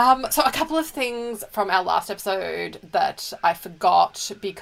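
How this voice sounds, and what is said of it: Usual voice. Nothing is said of it.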